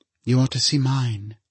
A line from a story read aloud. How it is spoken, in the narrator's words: she said gravely